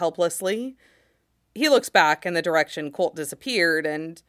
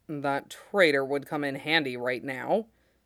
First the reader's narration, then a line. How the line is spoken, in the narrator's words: he mutters